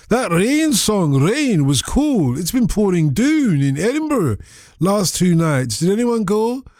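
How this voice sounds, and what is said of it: Put-on regional accent. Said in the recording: “Oh, I've got to do it in the accent, because he's written it in the accent.”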